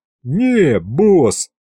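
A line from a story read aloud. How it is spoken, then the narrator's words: Giggling. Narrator (Russian): хихикнул Аристофан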